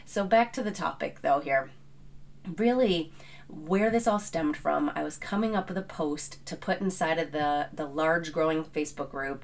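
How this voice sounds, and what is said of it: Out of breath, allergy-affected voice. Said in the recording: “if you're hearing me out of breath. I am suffering from some New England allergies, so I am in rare form today”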